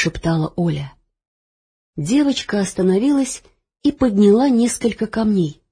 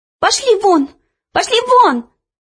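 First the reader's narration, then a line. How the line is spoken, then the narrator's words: Shouting. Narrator (Russian): закричала она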